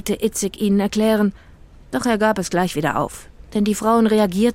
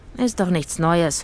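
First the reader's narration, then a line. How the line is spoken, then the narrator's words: Sighed. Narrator (German): seufzte Itzig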